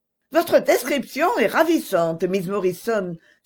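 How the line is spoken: Excited widow's exclamation. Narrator (French): s'écria la veuve tout excitée

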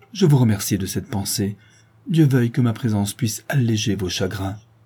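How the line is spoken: Exclaiming. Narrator (French): s'écrie Ottavio

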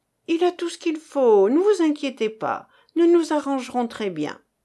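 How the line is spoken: Cheerful confident reply. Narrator (French): Geneviève répondit gaiement, avec une confiance superbe

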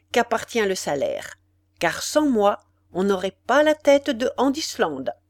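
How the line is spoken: Cold, small man. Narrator (French): dit froidement le petit homme

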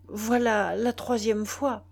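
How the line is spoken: Stammered. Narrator (French): balbutia-t-il

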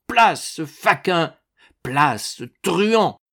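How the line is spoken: Thundering. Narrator (French): tonna Ragastens

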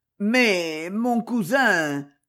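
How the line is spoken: Stammered. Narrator (French): balbutia M

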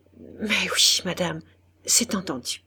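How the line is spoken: Stammering, choked with emotion. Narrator (French): Il balbutia, la voix coupée par l'émotion

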